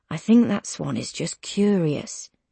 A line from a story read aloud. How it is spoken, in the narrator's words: he says gently